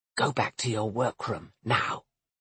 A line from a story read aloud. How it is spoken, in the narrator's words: Carlan whispered